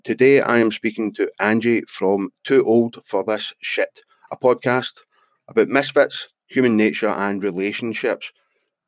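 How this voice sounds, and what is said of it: Scottish accent. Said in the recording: “I like it with your accent... Obviously, I'm from Scotland and I don't like my accent”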